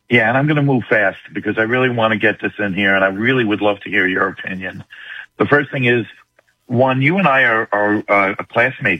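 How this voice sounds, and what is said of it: New York accent. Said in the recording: “You don't sound like you're from Texas, dude. You sound like you're from New York.”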